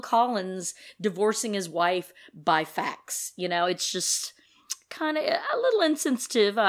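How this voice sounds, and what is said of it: Usual voice. Nothing is said of it.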